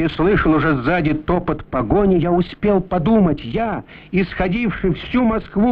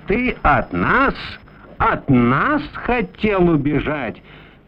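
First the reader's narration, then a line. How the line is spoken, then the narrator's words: Hissed. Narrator (Russian): Прошипел один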